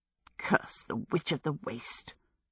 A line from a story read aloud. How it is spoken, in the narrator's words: she muttered to her stick